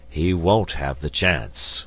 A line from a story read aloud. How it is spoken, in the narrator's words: grumbled the bear king